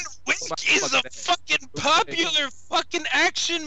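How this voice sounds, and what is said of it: Usual voice. Nothing is said of it.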